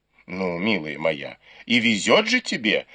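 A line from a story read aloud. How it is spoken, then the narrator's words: Woman's exclamation. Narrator (Russian): воскликнула госпожа Ю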